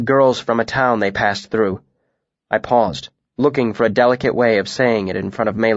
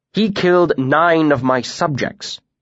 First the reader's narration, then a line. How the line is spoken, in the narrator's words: Alvaron pointed out sternly